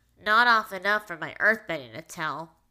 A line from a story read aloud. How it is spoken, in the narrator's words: Toph grumbled, to add to her irritation